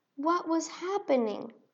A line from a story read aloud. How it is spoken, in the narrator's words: cried out